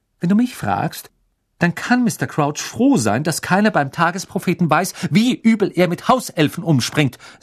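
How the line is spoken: Angry. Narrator (German): sagte Hermine zornig

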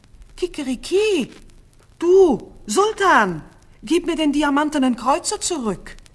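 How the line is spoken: Angry rooster screaming. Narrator (German): Das Hähnchen geriet in Zorn, schrie

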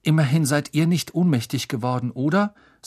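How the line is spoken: Weak, tired voice. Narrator (German): sagte Harry mit matter Stimme

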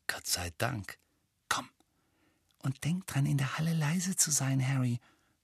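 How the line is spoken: Whisper. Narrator (German): flüsterte Hermine

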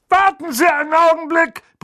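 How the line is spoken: Shouting toward fireplace. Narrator (German): brüllte er in Richtung Kamin

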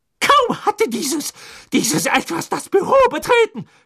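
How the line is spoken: Trembling scream. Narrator (German): schrie sie, am ganzen Leib bebend

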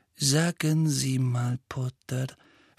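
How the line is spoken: Soft question. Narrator (German): fragte Snape sanft

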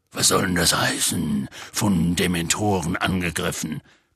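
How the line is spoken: Growled. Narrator (German): knurrte Hagrid

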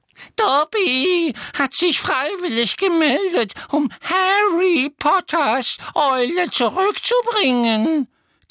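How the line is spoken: Admiring squeak. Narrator (German): quiekte der Elf mit einem Ausdruck unverhohlener Bewunderung im Gesicht

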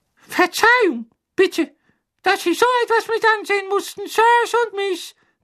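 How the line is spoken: Ashamed elf squeak. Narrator (German): quiekte einer der Elfen mit tief beschämter Miene

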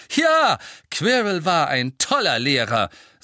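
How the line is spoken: Loud. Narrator (German): sagte Harry laut

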